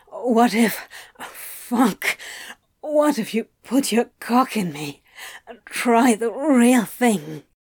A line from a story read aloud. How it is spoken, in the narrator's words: he gasped